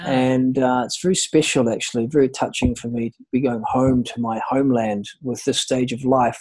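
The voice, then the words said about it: Slight New Zealand accent. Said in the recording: “the little bit of accent that I can detect, are you from New Zealand or Australia? ... I'm from New Zealand”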